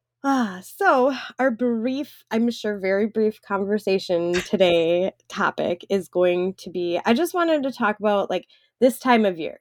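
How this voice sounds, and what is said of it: Congested, stuffy-nosed, sniffly voice. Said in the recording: “I'm sniffling into the microphone because my nose is stuffed up ... us being sniffly in prime allergy season ... I'm all sniffly”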